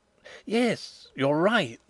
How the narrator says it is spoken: exclaimed Fritz, his face brightening

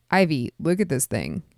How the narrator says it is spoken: he said

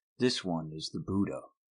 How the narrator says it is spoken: Siddhartha said quietly to Govinda

